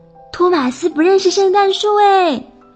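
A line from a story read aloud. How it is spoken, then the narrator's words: Shouting. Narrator (Chinese): 邓肯又到处的喊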